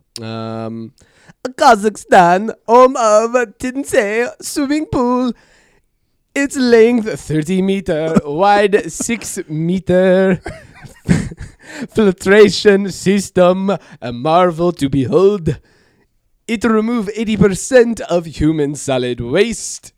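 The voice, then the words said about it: Poor Borat-style comedic accent. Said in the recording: “terrible Borat impression ... That's pretty bad.”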